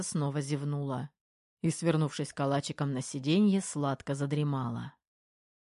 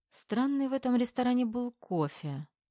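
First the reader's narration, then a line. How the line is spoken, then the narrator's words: Sleepy female voice. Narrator (Russian): сонно произнесла она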